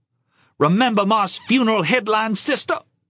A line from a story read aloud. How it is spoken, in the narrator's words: She spat out the words